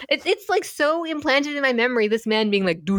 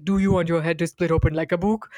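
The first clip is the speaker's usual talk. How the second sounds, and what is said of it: Deep booming imitated doctor voice. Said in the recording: “me imitating this doctor ... The deep booming voice.”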